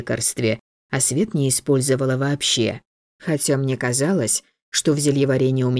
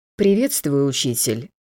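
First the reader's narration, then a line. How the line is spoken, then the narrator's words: Tired. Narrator (Russian): устало сказала я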